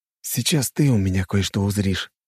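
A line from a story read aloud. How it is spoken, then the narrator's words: Whispered. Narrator (Russian): прошептал ему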